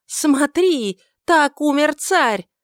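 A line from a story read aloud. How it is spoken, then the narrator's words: Sudden renewed shout. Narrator (Russian): с новой силой она внезапно закричала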